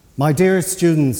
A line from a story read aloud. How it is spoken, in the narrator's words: she said